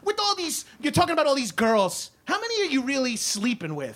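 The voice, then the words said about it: Imitates another person's voice. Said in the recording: “I could do a good impression of my mother-in-law”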